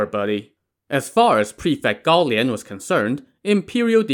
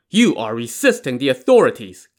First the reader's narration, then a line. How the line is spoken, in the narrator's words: Gao Lian barked